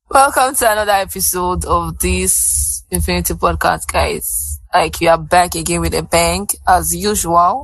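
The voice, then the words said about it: Hoarse voice. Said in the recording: “Why is my voice so hoarse like this?”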